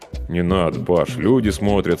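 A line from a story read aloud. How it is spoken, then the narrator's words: Embarrassed mumble. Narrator (Russian): смущенно пробормотал я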